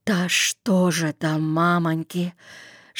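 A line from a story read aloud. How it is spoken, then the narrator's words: Whispered sigh. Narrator (Russian): Шепотом вздохнул кто-то на бугре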